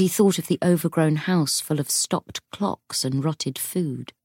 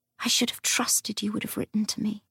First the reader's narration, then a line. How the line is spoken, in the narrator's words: she whispered